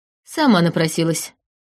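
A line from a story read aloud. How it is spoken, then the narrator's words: Snorting snake. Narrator (Russian): фыркнул змей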